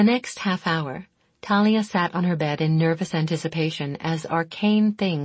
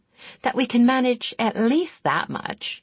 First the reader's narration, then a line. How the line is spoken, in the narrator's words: Jerry replied merrily